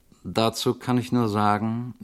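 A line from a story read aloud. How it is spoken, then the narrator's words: Rather tired voice. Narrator (German): bemerkte Frau Mandeville mit ziemlich müder Stimme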